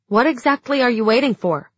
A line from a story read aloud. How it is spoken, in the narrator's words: I snapped